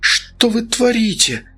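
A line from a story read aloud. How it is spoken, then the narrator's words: Hoarse rasp. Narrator (Russian): прохрипела Оксана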